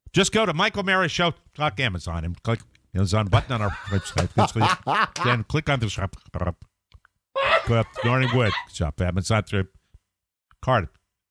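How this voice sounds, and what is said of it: Mimicking a glitchy, cutting-out connection. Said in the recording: “I'm pretending that we're having bad connectivity ... really, really do a great impersonation of bad connectivity ... I love the gurgle.”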